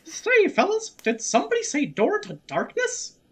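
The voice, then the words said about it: High-pitched Mickey Mouse cartoon voice. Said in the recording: “can you do a Mickey Mouse? ... My voice doesn't go that high. ... you can do the Mickey Hearts voice.”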